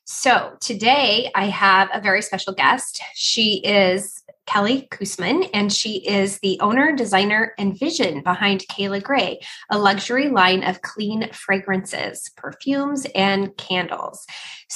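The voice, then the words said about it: Congested, scratchy-throated voice. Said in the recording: “I am just recovering from COVID. So I am struggling with a little bit of congestion and scratchy throat. So if you notice that my voice sounds different”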